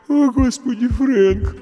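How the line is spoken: Sleepy mumble. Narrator (Russian): сонно пробормотала Марш

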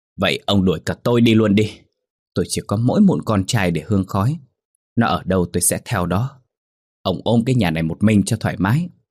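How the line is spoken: Very loud scream. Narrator (Vietnamese): Bà hét lên thật lớn

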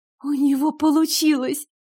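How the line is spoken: Sob. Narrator (Russian): Я всхлипнула

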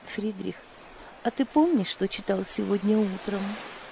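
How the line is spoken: Timid question. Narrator (Russian): Лиля робко спросила

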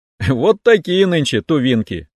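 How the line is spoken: Short chuckle. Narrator (Russian): хохотнул я

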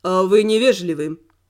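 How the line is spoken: Cold statement. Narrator (Russian): холодно констатировал мужчина

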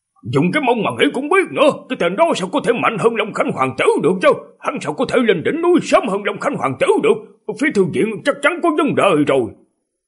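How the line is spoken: Exasperated shout. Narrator (Vietnamese): trợn mắt mà quát

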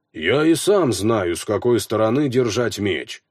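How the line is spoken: Grumble. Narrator (Russian): проворчал Хроки

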